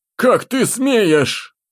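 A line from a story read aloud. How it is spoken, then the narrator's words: Helpless exclamation. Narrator (Russian): Воскликнул Лобковский, ощущая полную неспособность к действиям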